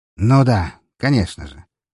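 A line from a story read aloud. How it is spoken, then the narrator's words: Sighing. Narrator (Russian): вздохнула она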